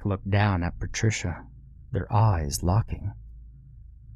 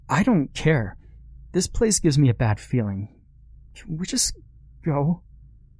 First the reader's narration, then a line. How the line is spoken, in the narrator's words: Her voice was trembling